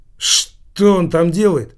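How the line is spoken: Plain. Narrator (Russian): спросил Килькин

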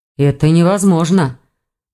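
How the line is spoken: Ragged sigh. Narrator (Russian): прерывисто вздохнул Прек

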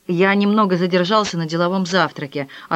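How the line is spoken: Plain. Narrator (Russian): ответил Блондо

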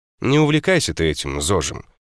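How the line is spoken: Snorting. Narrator (Russian): хмыкнул он

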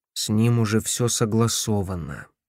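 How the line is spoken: Gloomy reply. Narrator (Russian): мрачно ответил Пулчер

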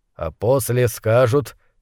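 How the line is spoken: Quiet. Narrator (Russian): тихо произнес он

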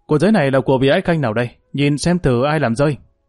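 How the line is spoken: Raised voice. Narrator (Vietnamese): Chính Đức cao giọng nói

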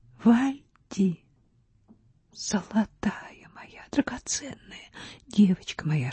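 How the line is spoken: Dry-lipped whisper. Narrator (Russian): шептал Вальдемар пересохшими губами

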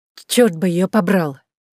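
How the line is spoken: Serious, resolute young woman. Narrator (Russian): сказала молодая девушка таким серьезным и решительным тоном

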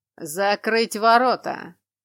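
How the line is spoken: Thundering command. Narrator (Russian): Приказ прогремел

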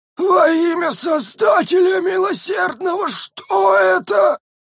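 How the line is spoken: Muffled hoarse rasp. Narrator (Russian): прохрипел несчастный, зажимая рот обеими ладонями

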